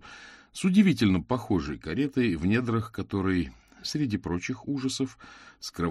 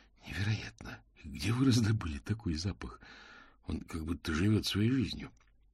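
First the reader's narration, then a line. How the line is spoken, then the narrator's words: Whisper. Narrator (Russian): Мокриц прошептал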